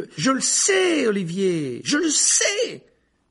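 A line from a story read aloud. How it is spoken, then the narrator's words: Shouting. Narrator (French): hurlait alors Harry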